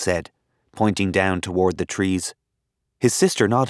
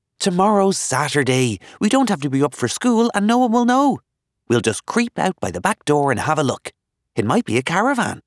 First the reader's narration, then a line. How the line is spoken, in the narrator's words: added excitedly